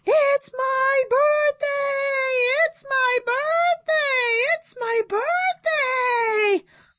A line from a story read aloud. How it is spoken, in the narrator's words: I'm running around the house screaming